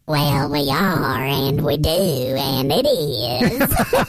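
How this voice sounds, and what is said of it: Imitates another person's voice. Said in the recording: “my Jerry Jones imitation”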